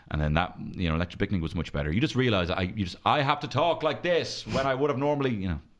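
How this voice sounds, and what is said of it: Loud, projected speaking voice. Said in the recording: “I feel like I'm shouting at the both of you now ... two of the loudest friends you could ever possibly have ... born 2 decibels louder than the average baby”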